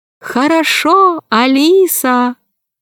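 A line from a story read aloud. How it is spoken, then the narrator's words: Thin dolphin voice. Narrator (Russian): дельфины … один … сказал тонким голосом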